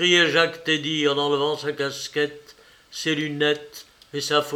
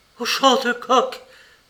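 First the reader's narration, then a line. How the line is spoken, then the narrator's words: Exclaimed. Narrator (French): s'écria Simone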